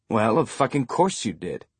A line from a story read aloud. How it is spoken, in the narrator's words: Eric said